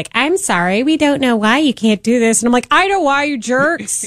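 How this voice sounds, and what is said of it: Generic customer-service flight attendant voice. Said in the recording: “what accent was that? ... It's just like the generic, like, ... the generic customer ... service ... stewardess”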